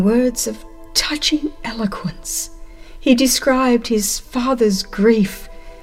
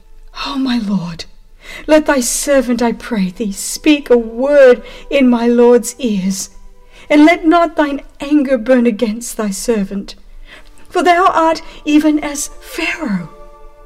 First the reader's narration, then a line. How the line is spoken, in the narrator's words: In his deep distress, Judah now drew near to the ruler and exclaimed